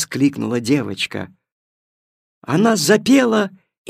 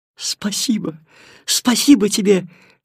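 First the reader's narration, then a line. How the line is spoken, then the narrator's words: Babbling child. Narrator (Russian): лепетала девочка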